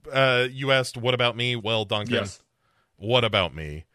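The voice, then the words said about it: Impression of Bob from What About Bob. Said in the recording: “my What About Bob impression”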